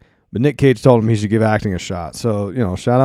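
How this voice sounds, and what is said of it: Usual voice. Nothing is said of it.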